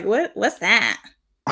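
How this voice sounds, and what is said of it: Imitates another person's voice. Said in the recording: “That's such a good impression.”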